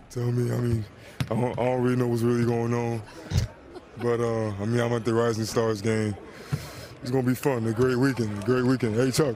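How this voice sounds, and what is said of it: Deep voice made even deeper. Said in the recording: “He's already got a pretty deep voice. ... Yeah, you just made it deeper.”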